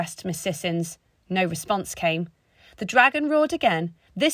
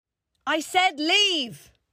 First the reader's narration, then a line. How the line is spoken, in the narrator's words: bellowed Kingsley